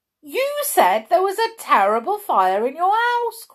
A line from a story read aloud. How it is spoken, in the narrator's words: cried Dame Shoe